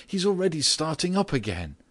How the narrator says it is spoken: she suddenly cried out

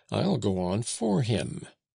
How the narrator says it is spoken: Max broke it by exclaiming

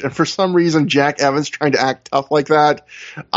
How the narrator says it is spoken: I laughed

